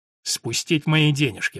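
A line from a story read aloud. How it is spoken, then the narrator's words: Gloomy. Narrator (Russian): мрачно сказал Том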